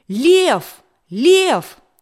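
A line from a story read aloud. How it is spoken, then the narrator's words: Sudden shout. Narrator (Russian): Вдруг кто-то закричал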